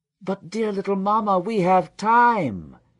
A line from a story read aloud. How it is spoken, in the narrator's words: cried Amenhotep with a lively gesture